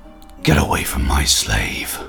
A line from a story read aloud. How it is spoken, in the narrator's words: in a snarling voice